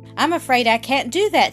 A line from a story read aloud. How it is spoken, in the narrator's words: said Lightfoot